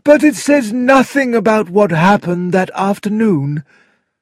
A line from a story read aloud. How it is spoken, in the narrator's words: said the coroner with a sigh